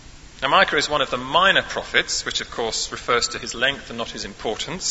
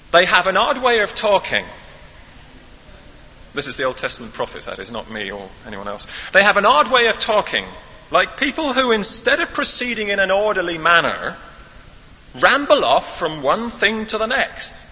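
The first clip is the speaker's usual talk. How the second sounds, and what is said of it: Put-on West Country English accent. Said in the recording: “Martin Luther had a West Country accent ... if you'll forgive me indulging my little fantasy”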